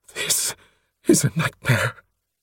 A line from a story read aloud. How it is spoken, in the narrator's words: he gasped